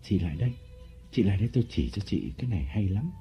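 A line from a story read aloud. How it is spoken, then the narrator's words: Whisper. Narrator (Vietnamese): Lộc ... thì thầm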